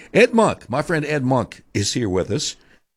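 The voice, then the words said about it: Choked-up, emotional voice. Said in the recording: “I got choked up”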